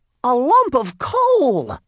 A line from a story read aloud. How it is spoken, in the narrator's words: Jasper cried